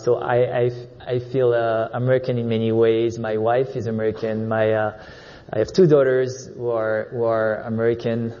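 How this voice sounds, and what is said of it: French accent. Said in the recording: “I'm French, as you can hear from my accent”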